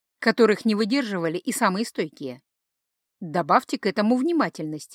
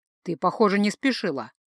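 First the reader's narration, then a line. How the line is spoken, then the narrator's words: Grumbling. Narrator (Russian): проворчал Гай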